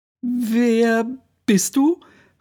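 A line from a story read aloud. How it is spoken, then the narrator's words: Too loud question. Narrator (German): fragte sie zu laut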